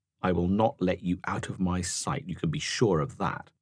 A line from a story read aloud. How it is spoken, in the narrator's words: she muttered darkly